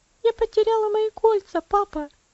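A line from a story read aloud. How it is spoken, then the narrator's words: Sobbing. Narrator (Russian): она разрыдалась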